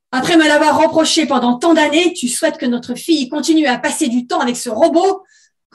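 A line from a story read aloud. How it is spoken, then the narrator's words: Angry scolding in one breath. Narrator (French): gronda-t-elle d'un trait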